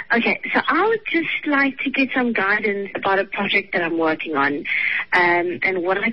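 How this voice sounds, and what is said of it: Refined accent. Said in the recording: “I love your accent. It's so refined.”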